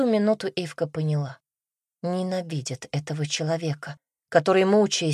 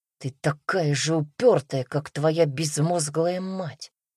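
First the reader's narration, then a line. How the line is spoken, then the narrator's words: Father's angry hiss. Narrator (Russian): отец прошипел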